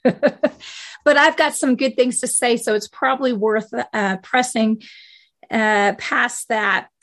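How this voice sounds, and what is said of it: Hoarse, weak voice. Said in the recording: “after some COVID and trying to get a strong voice. I know I'm kind of hoarse”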